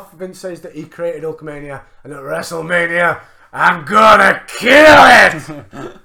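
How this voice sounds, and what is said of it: Vince McMahon impression. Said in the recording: “That's a great impression of Vince McMahon.”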